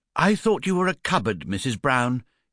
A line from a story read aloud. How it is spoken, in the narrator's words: he exclaimed